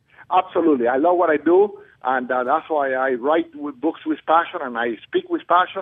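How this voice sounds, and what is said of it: Foreign accent in English. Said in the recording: “being from another country, I have an accent... I'm an American, but I had my accent”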